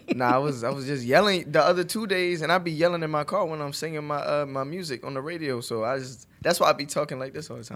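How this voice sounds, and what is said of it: Hoarse, worn-out voice. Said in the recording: “I'm losing my voice from the past 2 days.”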